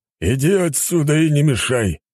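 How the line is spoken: Restrained deep bass. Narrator (Russian): сдержанно пробасил генерал

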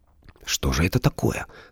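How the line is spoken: Plain. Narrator (Russian): спросила Валя

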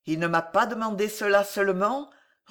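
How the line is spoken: Coldly indifferent, menacing voice. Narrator (French): reprit le moine d'une voix terrible d'indifférence apparente

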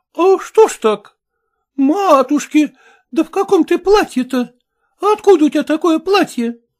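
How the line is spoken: Exclamation. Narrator (Russian): воскликнула сапожничиха

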